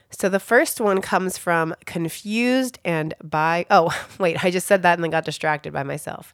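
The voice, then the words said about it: Voice off from a cold. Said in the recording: “I'm like overcoming some cold things. My voice is off ... I'm a little bit of cold”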